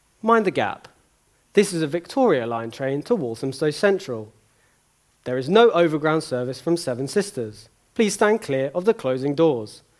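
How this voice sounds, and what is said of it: Imitates a tube announcer's voice. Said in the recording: “my best impression ... Many of you can hear her now.”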